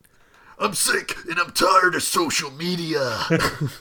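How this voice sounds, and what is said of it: Imitates a wrestler's gravelly voice. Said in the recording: “that's much more like Macho Man. I think Macho Man's the only one I can do.”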